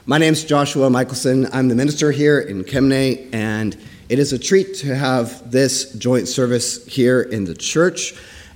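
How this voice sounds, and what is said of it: Hoarse, weak voice. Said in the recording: “I lost my voice”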